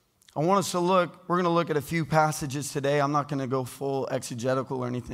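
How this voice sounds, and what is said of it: Hoarse, strained voice. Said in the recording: “You guys distracted by my voice? ... when I'm losing my voice.”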